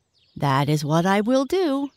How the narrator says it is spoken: exclaimed the white pig

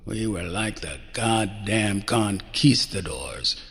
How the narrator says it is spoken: he'd growled

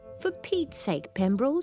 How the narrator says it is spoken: she'd often exclaim when he'd forgotten something

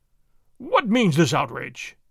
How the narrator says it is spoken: the governor exclaimed

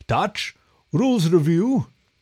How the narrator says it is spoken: The Minotaur let out a hearty laugh

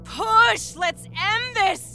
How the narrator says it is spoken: Gabriella screamed

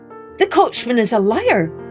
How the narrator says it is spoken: shouted the stranger

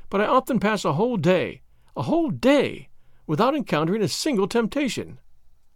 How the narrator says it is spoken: she said earnestly

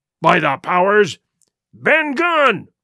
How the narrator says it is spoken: roared Silver

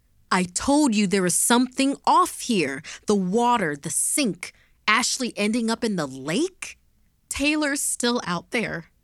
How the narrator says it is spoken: June shouted at Eli

